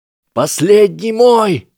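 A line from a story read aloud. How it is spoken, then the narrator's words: Yelled. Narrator (Russian): заорал Невилл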